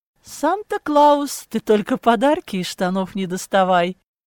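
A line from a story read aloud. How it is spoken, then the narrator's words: Drunken giggle. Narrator (Russian): Пьяно хихикнула она по-русски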